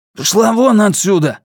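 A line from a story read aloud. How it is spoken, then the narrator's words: Rude shout. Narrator (Russian): грубо выкрикнула Аржо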